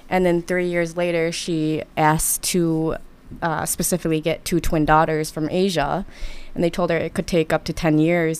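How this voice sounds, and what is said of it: Wisconsin American accent. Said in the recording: “you have a good Wisconsin accent”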